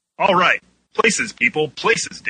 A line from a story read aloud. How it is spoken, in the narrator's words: Dan yelled